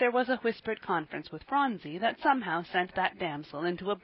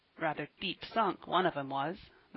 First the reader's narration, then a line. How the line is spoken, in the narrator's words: muttered Ben